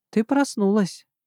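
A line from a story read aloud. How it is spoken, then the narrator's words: Tender. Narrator (Russian): ласково сказал он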